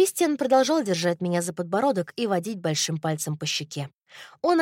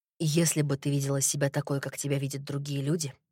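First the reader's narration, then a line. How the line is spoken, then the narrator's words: Quiet. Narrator (Russian): тихо сказал он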